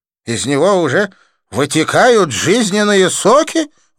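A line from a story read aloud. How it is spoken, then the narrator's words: Exclaiming. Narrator (Russian): воскликнул Джасвант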